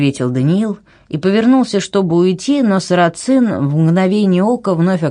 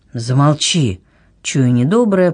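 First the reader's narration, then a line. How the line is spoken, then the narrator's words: Moaning. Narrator (Russian): простонал Даниил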